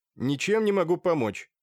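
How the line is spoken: Irritated. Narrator (Russian): раздраженно ответил художник

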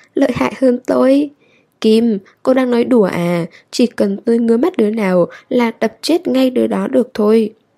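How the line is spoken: Bursting laughter. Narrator (Vietnamese): Cá mập hổ cười phá lên

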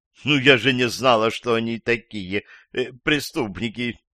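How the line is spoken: Sobbed. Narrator (Russian): всхлипнула женщина

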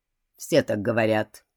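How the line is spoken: Dry remark, detective. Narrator (Russian): сухо заметил человек из Скотланд-Ярда

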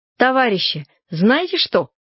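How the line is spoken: Angrily amused. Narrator (Russian): сказала я, чувствуя, что мне становится даже как-то весело от злости

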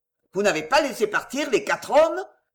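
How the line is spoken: Thundering threat. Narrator (French): tonna Chauvelin d'une voix pleine de menaces

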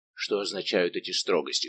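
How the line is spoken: Plain question. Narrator (Russian): спросил Портос

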